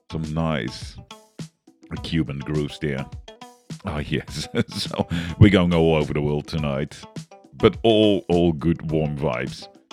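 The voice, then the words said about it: Australian Dutch accent. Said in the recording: “I am bringing them to you in in English with a Australian Dutch accent. So, pardon my pronunciation.”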